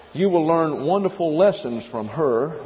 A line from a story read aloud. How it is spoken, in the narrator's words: he said